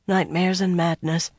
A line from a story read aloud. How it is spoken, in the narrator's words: Morghais sighed